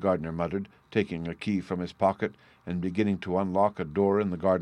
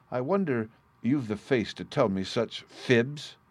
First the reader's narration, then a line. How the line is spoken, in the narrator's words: cried the gardener